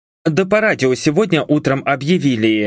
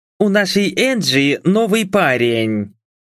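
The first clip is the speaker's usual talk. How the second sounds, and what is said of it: Parody of a morning radio host. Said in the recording (Russian): “Спародировал я голос утренней ведущей.”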